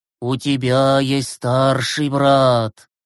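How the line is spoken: Trance-like voice. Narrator (Russian): проговорил Глеб трансовым голосом

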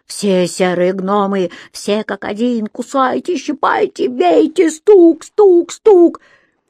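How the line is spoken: Terrified, louder scream. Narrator (Russian): Рони в ужасе закричала еще громче

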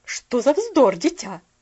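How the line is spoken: Slightly sharp interruption. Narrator (Russian): Прервала ее миссис Керрю немножко резко

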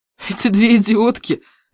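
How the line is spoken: Laughing loudly. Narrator (Russian): я захохотала

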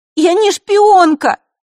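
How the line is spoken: Shouting. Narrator (Russian): выкрикнула Василиса из-за плеча Ника

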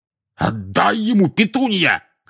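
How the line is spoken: Shout. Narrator (Russian): крикнул дядя Вернон

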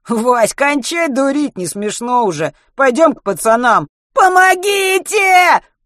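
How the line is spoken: Loud wail. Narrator (Russian): На весь салон завопил Матвей

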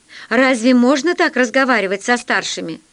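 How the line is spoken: Laughing. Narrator (Russian): Полосков засмеялся

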